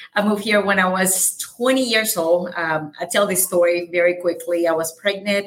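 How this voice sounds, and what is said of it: Light Salvadoran Spanish accent. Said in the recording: “I have a very light accent. I'm from El Salvador.”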